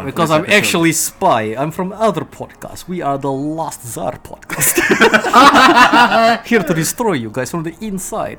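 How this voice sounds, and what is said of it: Put-on Russian accent. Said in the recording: “I'm gonna stop sliding into that Russian accent”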